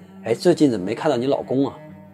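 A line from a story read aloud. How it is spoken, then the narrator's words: Plain. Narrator (Chinese): 苏丽珍说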